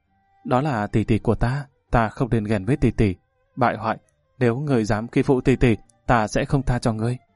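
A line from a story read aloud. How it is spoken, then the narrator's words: Gentle lament. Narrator (Vietnamese): nhị tiểu thư giọng dịu dàng than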